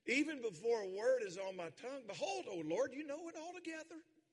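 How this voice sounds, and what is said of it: Strong regional accent. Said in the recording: “Is my accent worse since I've been with my brother-in-law for a week? ... Can y'all understand a word I'm saying? ... It's going to take a week, though, to get my accent back”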